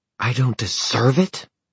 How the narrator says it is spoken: Zara hissed

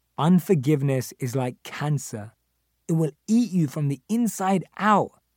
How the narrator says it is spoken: says Johnson

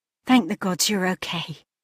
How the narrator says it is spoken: she whispered, the tiny loudspeakers making her quiet voice crackle

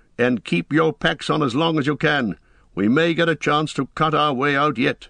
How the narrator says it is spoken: shouted Aragorn

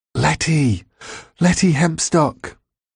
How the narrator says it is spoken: I whispered urgently

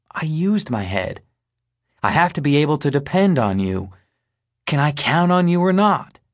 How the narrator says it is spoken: my dad asks

